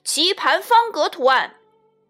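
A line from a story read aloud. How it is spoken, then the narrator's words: Shouting. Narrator (Chinese): 另一个人大叫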